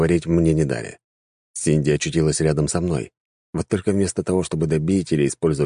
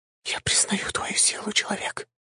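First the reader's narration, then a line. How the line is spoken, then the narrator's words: Whisper. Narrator (Russian): прошептала Синди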